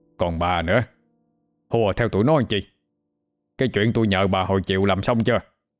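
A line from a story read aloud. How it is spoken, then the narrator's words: Harsh, gritted voice. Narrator (Vietnamese): gằn giọng nói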